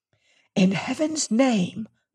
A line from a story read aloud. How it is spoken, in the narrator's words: I whispered